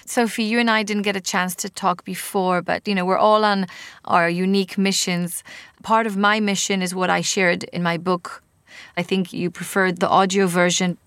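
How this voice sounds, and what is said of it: Israeli accent. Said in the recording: “my weird Israeli accent”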